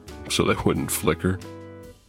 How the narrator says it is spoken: I chuckled to myself

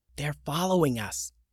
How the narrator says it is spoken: Lily whispered to Atlas

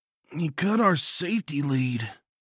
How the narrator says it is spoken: Bomber grunted

